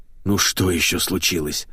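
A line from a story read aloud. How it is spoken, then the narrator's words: Groaning. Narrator (Russian): простонал Макс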